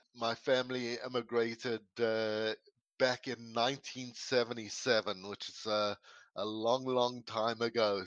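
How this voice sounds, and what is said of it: Mild South African accent. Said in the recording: “where that accent came from? ... I'm actually originally from South Africa ... my accent is not is definitely not as strong as it used to be. It's uh, been watered down quite a bit ... it's not a really strong South African accent per se”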